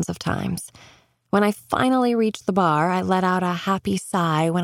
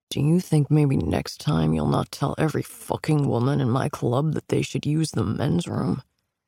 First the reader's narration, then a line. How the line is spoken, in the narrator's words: The question is growled into my ear